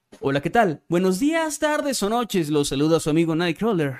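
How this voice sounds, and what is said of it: Narrator-style announcer voice. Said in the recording (Spanish): “me saludan con voz de narrador”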